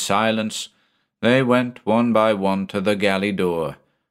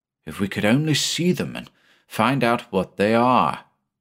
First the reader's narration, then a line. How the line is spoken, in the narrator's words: muttered